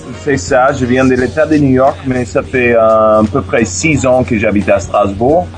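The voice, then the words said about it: American English accent in French. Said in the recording (French): “comme ton accent va l'indiquer, tu es plutôt anglophone, originaire de New York”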